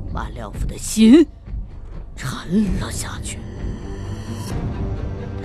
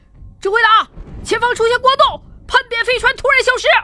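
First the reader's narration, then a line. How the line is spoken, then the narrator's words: Radio call. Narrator (Chinese): 二号飞船的呼叫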